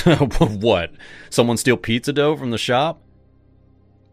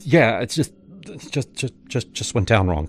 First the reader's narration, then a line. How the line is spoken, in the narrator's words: I muttered, heart pounding